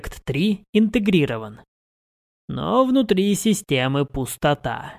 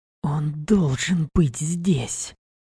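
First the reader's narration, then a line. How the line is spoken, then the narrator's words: Whispered. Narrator (Russian): прошептал Алекс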